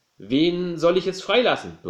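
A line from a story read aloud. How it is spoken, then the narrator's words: Crowd roaring. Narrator (German): brüllte die Menge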